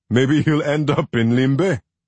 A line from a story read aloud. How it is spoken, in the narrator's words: Jende said, laughing